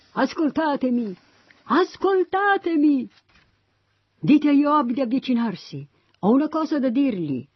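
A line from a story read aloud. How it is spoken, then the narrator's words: Shrewd woman shouting from within. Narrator (Italian): Allora una donna astuta gridò dall'interno della città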